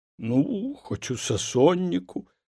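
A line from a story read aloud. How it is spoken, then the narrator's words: Trembling voice. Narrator (Belarusian): дрыготкім голасам пагадзіўся сушчэнне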